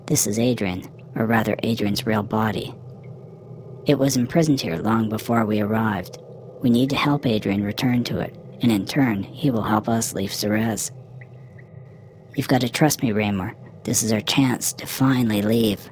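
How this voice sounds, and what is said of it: Soft-spoken voice. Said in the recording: “Amos spoke in a soft voice.”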